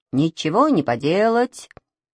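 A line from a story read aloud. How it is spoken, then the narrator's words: Calm. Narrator (Russian): спокойно сказал пилот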